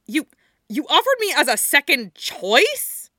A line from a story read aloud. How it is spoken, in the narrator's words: Yuri splutters, one indignity overtaking another